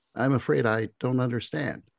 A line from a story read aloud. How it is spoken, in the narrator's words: she replies, her tone even